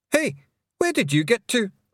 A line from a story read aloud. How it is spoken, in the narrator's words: shouted Rob Anybody, glaring up at her